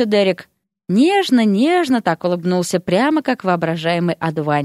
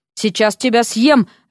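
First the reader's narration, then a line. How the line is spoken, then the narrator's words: Barking. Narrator (Russian): рявкнула на него Вася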